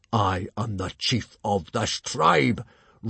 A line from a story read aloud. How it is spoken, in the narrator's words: roared Stoic the Vast